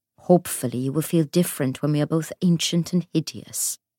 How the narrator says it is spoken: said Will

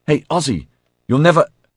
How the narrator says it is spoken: blurted

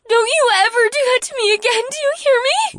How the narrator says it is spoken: Leah sobbed

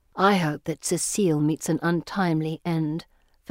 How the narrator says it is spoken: Felicity whispers to me

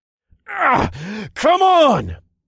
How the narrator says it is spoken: I yelled as I pushed my body even harder

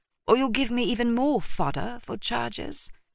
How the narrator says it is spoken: the chief of police said in an almost bored tone

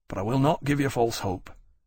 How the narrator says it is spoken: Keynes said to Lawrence quietly

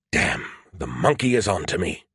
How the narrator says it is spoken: he muttered

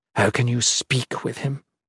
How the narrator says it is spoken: She whispered angrily, trying to keep Dacen from overhearing

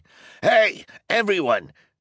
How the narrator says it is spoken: he shouted

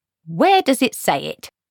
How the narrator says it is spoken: said Granny triumphantly

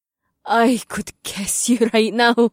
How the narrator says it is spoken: Amber said with a nervous laugh

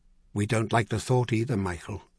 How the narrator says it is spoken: Charlian said gently

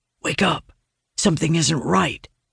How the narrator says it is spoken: he whispers

